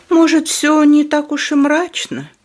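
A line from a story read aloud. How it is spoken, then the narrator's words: Tired. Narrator (Russian): устало проговорил доктор Гингрич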